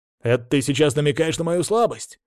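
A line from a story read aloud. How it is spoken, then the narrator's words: Displeased barking. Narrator (Russian): недовольно рявкнул Игорь Геннадьевич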